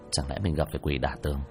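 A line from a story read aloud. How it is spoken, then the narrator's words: Mutter. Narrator (Vietnamese): hắn lẩm bẩm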